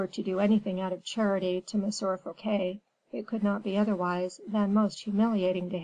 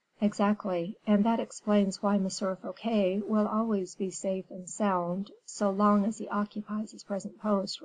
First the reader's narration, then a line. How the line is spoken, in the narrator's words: replied Colbert